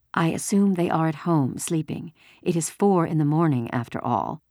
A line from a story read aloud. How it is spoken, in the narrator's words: Mama said